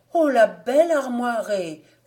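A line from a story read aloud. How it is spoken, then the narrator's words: Woman exclaiming. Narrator (French): s'écria la femme Rojoux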